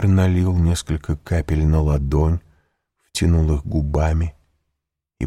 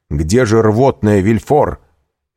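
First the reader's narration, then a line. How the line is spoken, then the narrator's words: Shout. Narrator (Russian): крикнул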